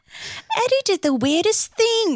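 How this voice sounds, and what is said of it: Daphne accent impression. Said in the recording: “The Daphne accent?”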